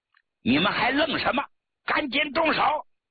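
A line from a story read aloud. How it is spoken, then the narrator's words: Stern shouted question. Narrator (Chinese): 谭平山厉声喝问道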